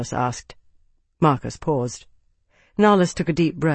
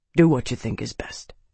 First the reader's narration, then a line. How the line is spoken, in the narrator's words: said quietly